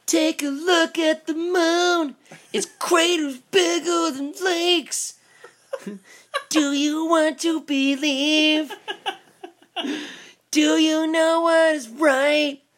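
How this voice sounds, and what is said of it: Imitates a band's singing. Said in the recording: “I think my impression of it, my favorite part”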